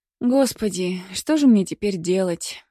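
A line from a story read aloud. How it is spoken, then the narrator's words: Girl's sad sigh. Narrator (Russian): вздохнула девушка печально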